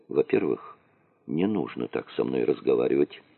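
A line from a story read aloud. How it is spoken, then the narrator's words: Cold, rude tone. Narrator (Russian): холодно заметил Дронго в таком хамском тоне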